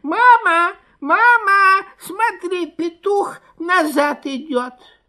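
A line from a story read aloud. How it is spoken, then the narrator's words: Squeaking fox cubs. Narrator (Russian): Лисята запищали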